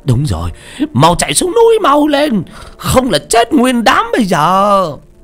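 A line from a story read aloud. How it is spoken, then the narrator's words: Shouting. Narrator (Vietnamese): Trung Tử là người đầu tiên la lên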